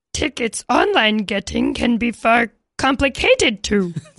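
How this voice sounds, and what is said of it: Yoda character voice impression. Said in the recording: “Are you well-versed enough in Star Wars to do a Yoda impression? ... Do this one like Yoda. ... Yoda, please.”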